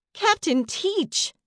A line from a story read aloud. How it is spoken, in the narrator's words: Melody squealed